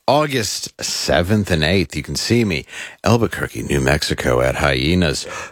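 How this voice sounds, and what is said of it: Smooth radio announcer voice. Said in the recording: “I just like how you get smooth when you do these ... I read it in my very radio voice.”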